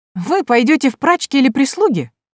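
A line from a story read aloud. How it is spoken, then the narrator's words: Girl's cheerful dismissal. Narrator (Russian): Весело отмахнулась девушка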